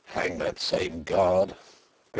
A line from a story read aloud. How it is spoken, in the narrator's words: growled Sapt